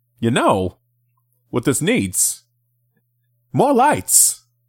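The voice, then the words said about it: Poor Christopher Walken impression. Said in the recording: “That's a terrible Walken impression”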